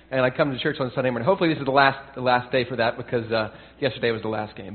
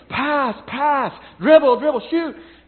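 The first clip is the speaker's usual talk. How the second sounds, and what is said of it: Yelling basketball coaching commands. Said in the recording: “I'm yelling,”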